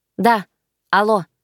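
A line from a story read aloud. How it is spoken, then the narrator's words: Rude bark into phone. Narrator (Russian): рявкнула я в трубку без всякого намека на вежливость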